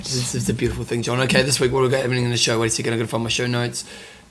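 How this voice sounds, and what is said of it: Losing voice, deeper hoarse voice. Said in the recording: “I'm losing my voice. ... You got the radio voice today. ... puberty's happening, mate”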